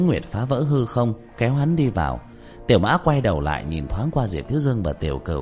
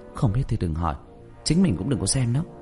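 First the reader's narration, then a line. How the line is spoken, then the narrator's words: Lowered, fierce voice. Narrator (Vietnamese): hung hăng, hạ giọng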